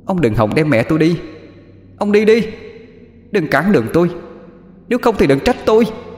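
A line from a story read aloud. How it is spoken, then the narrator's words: Girl screaming. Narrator (Vietnamese): Con bé lại thét lên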